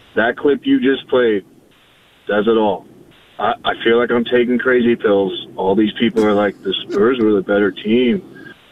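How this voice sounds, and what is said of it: Hoarse, strained voice. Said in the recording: “I lost my voice screaming last night”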